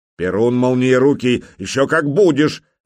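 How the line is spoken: Exasperated bark. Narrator (Russian): рявкнул белозерский князь, потому что сегодня с избытком хватило пререканий с малолетним нахалом

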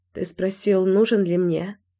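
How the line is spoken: Hoarse. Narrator (Russian): произнесла я хрипло

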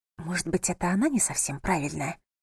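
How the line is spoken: Whisper. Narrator (Russian): прошептала София

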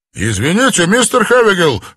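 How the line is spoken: Quick shout. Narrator (Russian): быстро выкрикнул Хэпли

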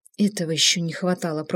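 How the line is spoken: Muttered. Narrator (Russian): пробормотала Инга

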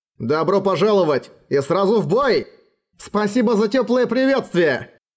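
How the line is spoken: Cheerful smiling shout. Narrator (Russian): Широко улыбаясь им, он крикнул

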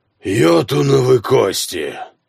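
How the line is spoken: Weary exhale. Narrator (Russian): устало выдохнул Хроки

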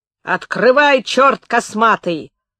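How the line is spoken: Several voices shouting behind door. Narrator (Russian): закричало за дверью уже несколько голосов

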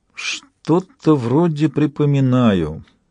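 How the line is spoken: Uncertain. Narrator (Russian): неуверенно проговорил совершенный

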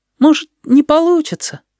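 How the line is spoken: Uncertain. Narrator (Russian): неуверенно сказал Стасик

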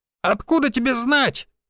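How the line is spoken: Shrill shriek. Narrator (Russian): взвизгнул кучерявый

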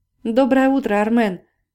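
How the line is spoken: Shouting. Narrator (Russian): крикнула она

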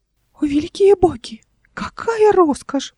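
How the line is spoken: Squeaky voice. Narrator (Russian): пропищал он

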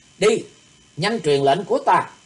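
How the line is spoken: Shouted. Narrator (Vietnamese): Thủy Tuấn Hạo quát

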